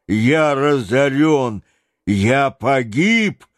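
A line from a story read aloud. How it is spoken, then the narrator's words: Frantic yelling. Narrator (Russian): орал он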